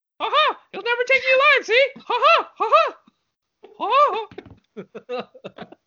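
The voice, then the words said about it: 1920s gangster in Mickey Mouse voice. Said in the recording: “your 1920 Chicago gangster voice in your Mickey Mouse voice”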